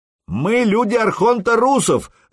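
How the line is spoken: Yelled. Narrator (Russian): заорал Сергей

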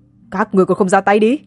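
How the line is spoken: Shout while spitting blood. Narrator (Vietnamese): Tiêu Thiên Duệ phun ra bùng máu, hét lên

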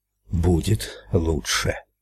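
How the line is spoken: Breathed out up close. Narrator (Russian): выдохнул Эд прямо в лицо Ральфу

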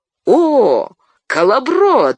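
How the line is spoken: Joyful exclamation. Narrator (Russian): радостно воскликнул Фродо

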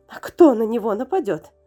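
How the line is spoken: Trembling babbling woman. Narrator (Russian): дрожащим голосом пролепетала активистка

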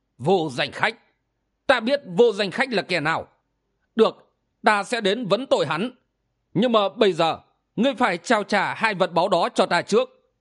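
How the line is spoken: Angry speech. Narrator (Vietnamese): Ảo ma Đầu Đà tức giận nói

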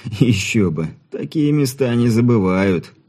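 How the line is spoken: Chuckling. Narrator (Russian): хохотнул Ирман

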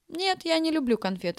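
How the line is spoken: Laughing. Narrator (Russian): рассмеялся Стасик

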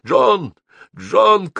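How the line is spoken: Shouting. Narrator (Russian): кричал Геннадий

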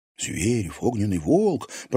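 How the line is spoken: Frightened students whispering. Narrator (Russian): продолжали шептаться испуганные ученики

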